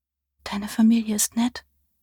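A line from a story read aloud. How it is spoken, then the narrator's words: Drowsy murmur. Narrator (German): murmelte sie, bevor ihr die Augen zufielen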